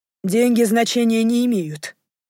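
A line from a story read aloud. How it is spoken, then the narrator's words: Plain. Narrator (Russian): ответил ему Рой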